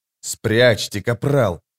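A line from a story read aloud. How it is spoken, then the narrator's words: Quiet growl. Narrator (Russian): тихо прорычал Паран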